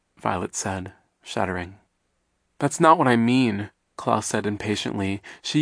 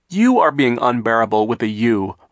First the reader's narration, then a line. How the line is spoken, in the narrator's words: Violet cried